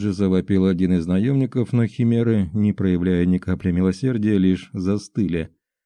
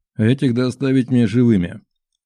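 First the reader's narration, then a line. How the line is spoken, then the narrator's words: Cold command. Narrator (Russian): холодно приказал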